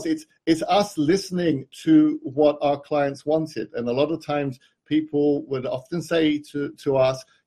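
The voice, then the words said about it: British accent. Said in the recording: “I have the British accent.”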